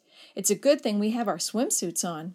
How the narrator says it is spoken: laughed when the salty water soaked her back

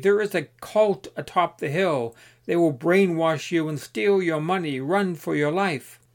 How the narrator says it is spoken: The other said frantically

